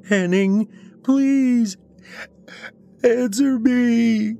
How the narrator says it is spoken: sobbed

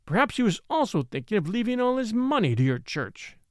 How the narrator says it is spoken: he cried, with a blasting sneer

